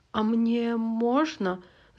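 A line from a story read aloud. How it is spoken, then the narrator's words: Stammering request. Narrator (Russian): запинаясь, попросил Сазонка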